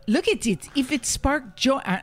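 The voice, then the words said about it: Marie Kondo impression, Spanish-sounding accent. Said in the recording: “why did I use a Chinese? It's not even a Chinese accent... I turned her Spanish”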